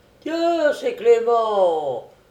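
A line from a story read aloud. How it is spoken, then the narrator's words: Several drinkers exclaiming. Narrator (French): s'écrièrent quelques buveurs, ouvriers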